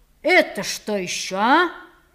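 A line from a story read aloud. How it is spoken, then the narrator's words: Stern question. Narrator (Russian): строго спрашивал он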